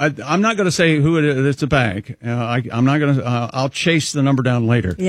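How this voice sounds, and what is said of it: Usual voice. Nothing is said of it.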